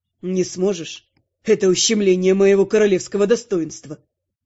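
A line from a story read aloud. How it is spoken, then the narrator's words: Snort. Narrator (Russian): Я фыркнула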